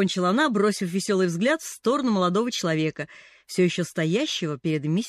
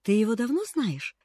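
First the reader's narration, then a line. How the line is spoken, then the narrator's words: Thoughtful question. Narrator (Russian): задумчиво спросил Джимми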